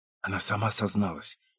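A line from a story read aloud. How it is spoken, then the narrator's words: Whisper. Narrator (Russian): прошептала Инна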